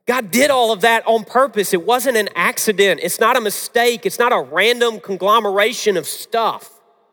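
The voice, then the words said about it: Very strong Southern US accent. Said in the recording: “a very strong Southern accent that I sometimes have to speak faster so people will hear me better”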